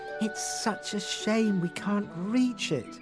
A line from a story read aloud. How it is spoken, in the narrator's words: sighed Rose